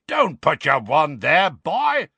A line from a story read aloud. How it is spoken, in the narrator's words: roared Moody